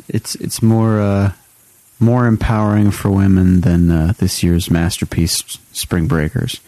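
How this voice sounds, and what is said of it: Sarcastic tone. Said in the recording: “I say that sarcastically.”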